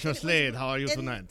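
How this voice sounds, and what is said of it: Put-on French accent. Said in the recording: “I'll do like a French accent and everything.”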